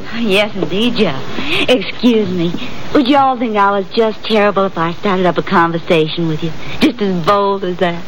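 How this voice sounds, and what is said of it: Kentucky Southern American accent. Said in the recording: “my accent. I'm from Kentucky. The horse country.”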